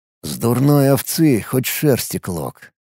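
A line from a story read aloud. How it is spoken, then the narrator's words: Mutter. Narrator (Russian): пробормотал я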